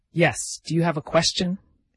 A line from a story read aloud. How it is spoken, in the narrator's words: exclaimed Alex